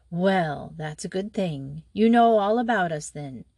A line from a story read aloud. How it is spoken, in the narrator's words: She said gravely